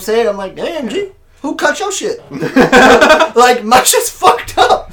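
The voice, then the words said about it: Put-on accent. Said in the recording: “Because of the accent. You can't do what accents anymore.”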